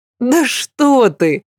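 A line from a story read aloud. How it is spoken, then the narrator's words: Laughing. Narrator (Russian): рассмеялась Аглая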